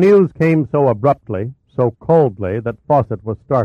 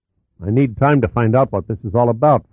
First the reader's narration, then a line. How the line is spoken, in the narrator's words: Fawcett said